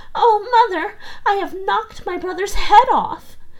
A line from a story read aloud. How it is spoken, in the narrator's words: Marlena was terrified and began crying and screaming and said